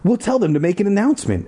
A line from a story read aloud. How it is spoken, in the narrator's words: Ashley cried